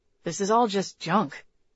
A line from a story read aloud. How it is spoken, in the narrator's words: Tucker grumbled